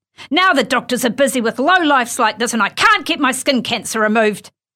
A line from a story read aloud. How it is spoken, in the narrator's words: he cried